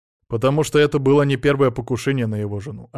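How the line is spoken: Plain. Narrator (Russian): ответил Алексей

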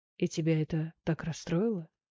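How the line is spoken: Soft, very sad voice. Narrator (Russian): Мягким и очень печальным голосом спросил он

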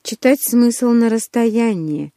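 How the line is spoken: Sigh. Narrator (Russian): вздохнул брюнет

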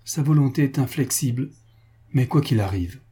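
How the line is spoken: Exclaiming. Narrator (French): s'écria Franz

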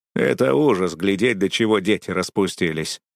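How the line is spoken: Grumbling neighbor. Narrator (Russian): проворчал мой деловитый сосед

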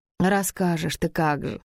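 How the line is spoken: Sad grumble. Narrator (Russian): проворчала я в великой печали

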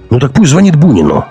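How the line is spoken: Barked. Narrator (Russian): рявкнул Гумилев

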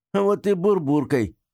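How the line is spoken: Laughing reply. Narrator (Russian): смеясь, ответила она

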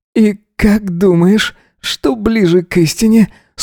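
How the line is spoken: Asking with louder moan. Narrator (Russian): спросил он, застонав громче

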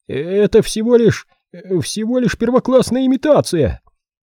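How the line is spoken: Shrill voice. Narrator (Russian): Визгливым голосом мистер Монтроз высказал свое мнение

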